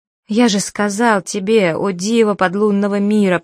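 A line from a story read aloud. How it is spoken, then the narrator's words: Moaning. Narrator (Russian): простонал Абдулла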